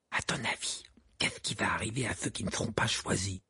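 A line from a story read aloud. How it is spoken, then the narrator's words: Whispered. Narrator (French): murmura Ron à Harry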